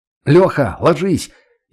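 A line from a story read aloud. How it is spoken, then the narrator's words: Shouted warning. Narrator (Russian): Я крикнул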